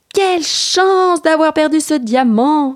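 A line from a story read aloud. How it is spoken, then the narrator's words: Little boy exclaiming. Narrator (French): s'écria petit garçon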